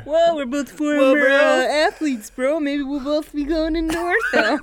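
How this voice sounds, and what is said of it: Impression of a friend's voice. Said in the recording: “Good impression.”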